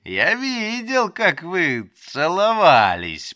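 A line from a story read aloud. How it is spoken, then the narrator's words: Giggling, gloating. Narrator (Russian): повторил я, хихикая и наслаждаясь ее смущением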